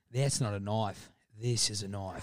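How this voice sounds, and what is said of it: Put-on Australian accent. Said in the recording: “the Australian accent, for everyone out there, is actually a sliding in the back”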